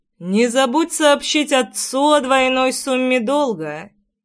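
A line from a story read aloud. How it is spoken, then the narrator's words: Lazy tossed-off remark. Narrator (Russian): лениво бросил я ей вслед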